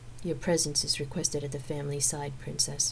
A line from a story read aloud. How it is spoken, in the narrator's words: Emphany said flatly